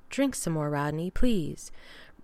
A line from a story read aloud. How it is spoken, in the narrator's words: Braddock murmured